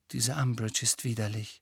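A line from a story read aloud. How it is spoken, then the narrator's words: Quiet voice. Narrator (German): sagte sie mit leiser Stimme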